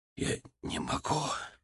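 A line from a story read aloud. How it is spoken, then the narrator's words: Whisper. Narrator (Russian): прошептал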